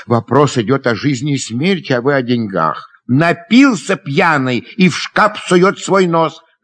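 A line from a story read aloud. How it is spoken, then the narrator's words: Shouted. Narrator (Russian): крикнул Дашенька, сердито хлопнув дверцей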